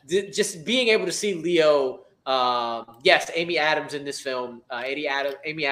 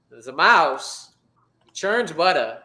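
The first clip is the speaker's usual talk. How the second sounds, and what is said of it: Christopher Walken impression. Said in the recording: “That's about as best as Christopher Walken impression I could do.”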